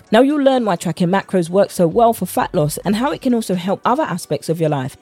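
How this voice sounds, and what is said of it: British accent. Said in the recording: “with my British accent”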